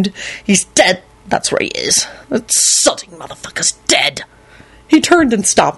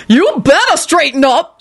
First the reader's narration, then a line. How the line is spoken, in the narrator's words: she screamed threateningly